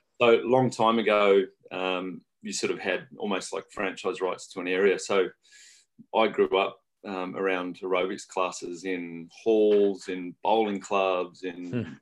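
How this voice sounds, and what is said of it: Australian accent. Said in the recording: “I'm Australian originally... yeah, I gathered that, yeah... Is the twang still there?”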